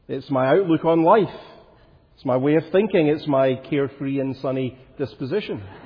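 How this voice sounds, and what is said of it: Glaswegian Scottish accent. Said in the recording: “identified from my voice that I'm from Glasgow, that I'm a Glaswegian ... I'm still shaped by my life there. And it's not just my accent.”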